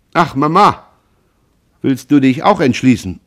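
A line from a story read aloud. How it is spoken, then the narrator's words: Called out. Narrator (German): rief Jean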